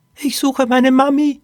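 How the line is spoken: Squeaky voice. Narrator (German): piepste Poppy

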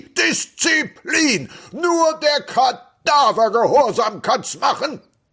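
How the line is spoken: Shouting. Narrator (German): Er schrie

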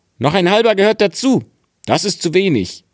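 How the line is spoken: Called out. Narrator (German): rief er

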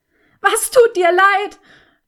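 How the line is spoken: Roaring with last strength. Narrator (German): brüllte sie ihn an mit der allerletzten Kraft eines Menschen, der sich dem Tod geweiht fühlt

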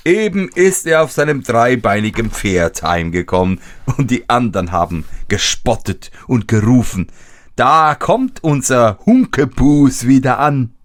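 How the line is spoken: Laughing speech. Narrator (German): lachte und sprach

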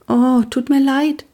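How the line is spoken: Thin small voice. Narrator (German): sagte Pia mit dünner Stimme

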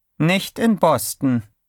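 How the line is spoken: Calm. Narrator (German): sagte Corley ruhig

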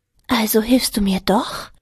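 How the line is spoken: Hopeful whisper. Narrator (German): flüsterte sie hoffnungsvoll

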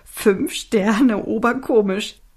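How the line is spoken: Giggling. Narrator (German): kicherte Alfie

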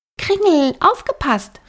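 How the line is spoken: Called out. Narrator (German): rief Flora

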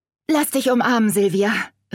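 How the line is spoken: Calling out. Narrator (German): rief Veronika

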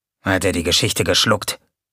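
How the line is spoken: Murmur. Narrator (German): murmelte Gonko

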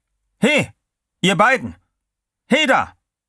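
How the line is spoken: Guard calling out. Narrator (German): Wieder rief der Wärter

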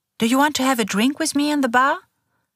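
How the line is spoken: Cheerful question. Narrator (German): fragt sie fröhlich

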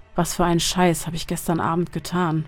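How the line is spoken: Muttering man. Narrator (German): murmelte er

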